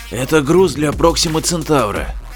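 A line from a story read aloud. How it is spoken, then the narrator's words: Hoarse. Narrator (Russian): хрипло сказал врач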